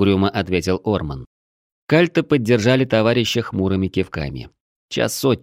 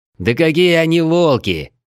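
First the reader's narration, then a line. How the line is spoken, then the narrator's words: Indignant growl. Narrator (Russian): возмущенно рыкнул Крим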